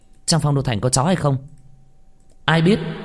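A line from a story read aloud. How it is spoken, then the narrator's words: Pleased shout. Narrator (Vietnamese): Minh Vương nghe trong lòng thoải mái, quát lên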